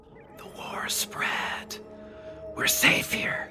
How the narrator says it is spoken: whispered

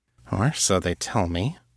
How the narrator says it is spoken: she added softly

